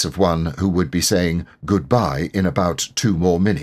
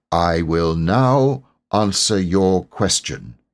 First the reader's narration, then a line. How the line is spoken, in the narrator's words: he said solemnly